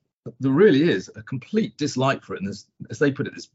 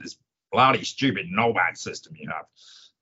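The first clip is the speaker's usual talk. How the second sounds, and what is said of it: Poor put-on American accent. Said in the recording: “That was probably a terrible American accent”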